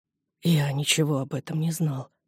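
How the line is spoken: Hoarse. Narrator (Russian): прохрипел он

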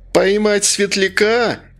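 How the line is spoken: Exclamation. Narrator (Russian): воскликнул Лаки

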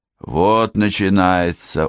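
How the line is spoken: Gloomy drawl. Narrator (Russian): уныло протянул Уолли

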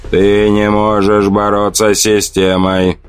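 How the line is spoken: Booming hum. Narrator (Russian): прогудело оно

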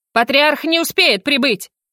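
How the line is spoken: Near shout. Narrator (Russian): почти выкрикнула Мардена

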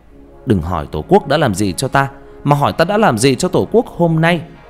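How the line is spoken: Shouting while running. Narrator (Vietnamese): Khánh chạy nhanh lên trước, vừa chạy vừa hét

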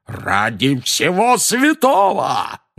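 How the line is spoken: Roared. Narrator (Russian): взревел дядя Вернон

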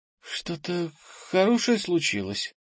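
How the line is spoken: Timid question. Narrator (Russian): робко спросила Фластра

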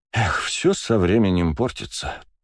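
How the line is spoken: Sighing. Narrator (Russian): вздохнул

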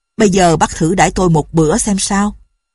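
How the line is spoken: Loud laughing speech. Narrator (Vietnamese): Như Hổ cười to bảo

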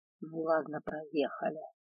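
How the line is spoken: Displeased mutter, dragon. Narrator (Russian): недовольно пробормотал дракон

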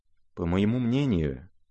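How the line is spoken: Rather quiet. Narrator (Russian): начал князь довольно тихо

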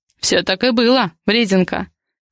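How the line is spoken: Laughing. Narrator (Russian): рассмеялся Адриан

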